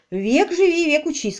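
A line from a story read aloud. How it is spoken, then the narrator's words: Cheerful. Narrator (Russian): сказала Селия, весело сплеснув руками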